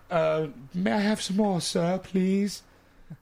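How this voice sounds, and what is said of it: Over-the-top bad English accent. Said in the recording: “That's my over the top ... That's the bad English accent.”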